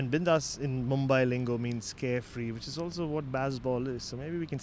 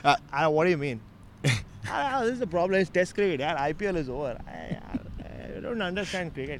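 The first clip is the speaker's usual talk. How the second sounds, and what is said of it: Impression of Rohit Sharma. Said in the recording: “The world's foremost Rohit Sharma impersonator”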